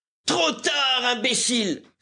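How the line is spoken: Roaring shout. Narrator (French): s'écria le jeune capitaine avec un véritable rugissement

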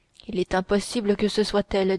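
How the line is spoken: Plain. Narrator (French): dit-il

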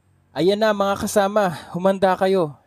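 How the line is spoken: Father shouting. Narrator (Tagalog): sigaw ng ama ni Estrella

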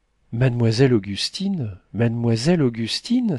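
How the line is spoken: Enthusiastic exclamation. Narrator (French): s'écria Joseph Lebas dans son enthousiasme

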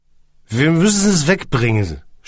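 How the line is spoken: Groan. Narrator (German): stöhnte er

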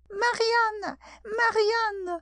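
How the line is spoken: Shouted. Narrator (French): cria la voix

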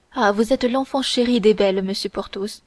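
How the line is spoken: Sighing woman. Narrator (French): reprit en soupirant la procureuse

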